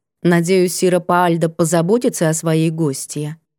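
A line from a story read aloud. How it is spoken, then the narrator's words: Calm. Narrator (Russian): произнесла спокойно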